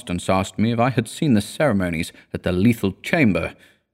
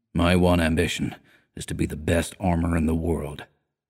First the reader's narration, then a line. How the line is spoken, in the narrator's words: he answered gravely